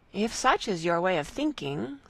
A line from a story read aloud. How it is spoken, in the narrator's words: said Marianne